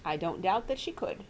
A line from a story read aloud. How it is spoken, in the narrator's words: returned Uncle Parker calmly